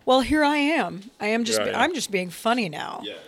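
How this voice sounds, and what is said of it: Put-on joking comedic voice. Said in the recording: “you might get into like a voice that you're like ... and that's your funny voice.”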